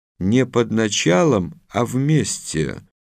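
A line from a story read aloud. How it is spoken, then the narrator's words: Calm reply. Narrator (Russian): спокойно ответил Базилевич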